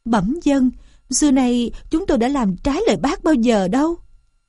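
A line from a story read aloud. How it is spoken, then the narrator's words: Trembling. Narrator (Vietnamese): Châu chấu ma run rẩy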